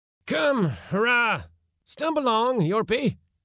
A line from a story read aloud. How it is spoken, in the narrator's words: cried impatiently